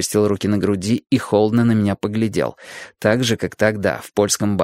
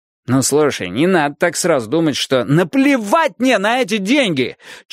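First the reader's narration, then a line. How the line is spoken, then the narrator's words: Nearly yelling aloud. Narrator (Russian): Чуть не в голос орал я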